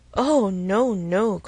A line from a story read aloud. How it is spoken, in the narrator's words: cried Emma, laughing as carelessly as she could